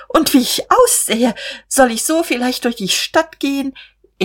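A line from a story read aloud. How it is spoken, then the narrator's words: Startled, helpless laugh. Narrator (German): erschrak aufs Neue und lachte ratlos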